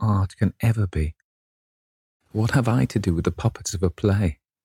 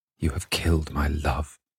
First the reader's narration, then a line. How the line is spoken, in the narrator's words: he muttered